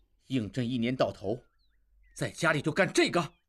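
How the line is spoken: Suppressed anger. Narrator (Chinese): 应季强忍怒火

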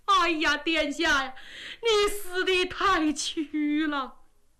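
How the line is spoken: Loud wailing. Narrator (Chinese): 秦桧看着赵王的尸首是放声大哭

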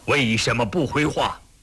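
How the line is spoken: Emperor's fury. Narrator (Chinese): 康熙龙颜大怒

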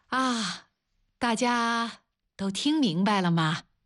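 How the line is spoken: Loud repeated question. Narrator (Chinese): 王丽再一次大声地问

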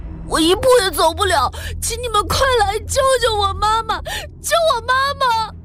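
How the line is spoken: Crying into phone. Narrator (Chinese): 秦山哭着对电话说

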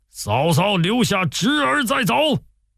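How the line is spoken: General shouting loudly. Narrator (Chinese): 一员大将高声大叫

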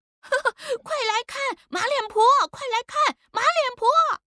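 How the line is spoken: Children shouting. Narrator (Chinese): 几个不懂事的奴仔也跟着喊

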